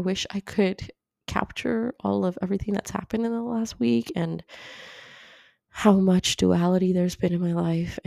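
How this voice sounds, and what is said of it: Sick-sounding voice. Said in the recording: “hear it in my voice, but I'm also sick now.”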